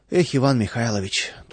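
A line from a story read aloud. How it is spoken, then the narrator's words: Sighing. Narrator (Russian): только вздохнул Владыкин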